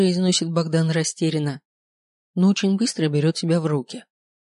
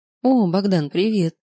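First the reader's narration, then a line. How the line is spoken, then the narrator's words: Calmly said. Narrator (Russian): спокойно говорю я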